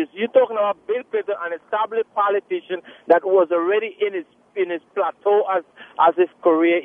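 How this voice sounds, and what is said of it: Very thick foreign accent. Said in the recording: “You've got a very thick accent... He has a thick accent... My accent is very thick”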